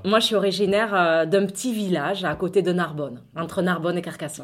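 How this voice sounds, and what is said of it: Southern French regional accent. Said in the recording (French): “s'entend dans la ... voix ... t'as voulu garder cet accent”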